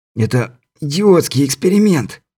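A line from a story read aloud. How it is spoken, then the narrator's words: Hoarse rasp. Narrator (Russian): прохрипел Стюарт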